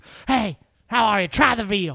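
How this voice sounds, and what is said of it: Imitates another person's voice. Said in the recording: “your impersonation of the waiter ... your impersonation”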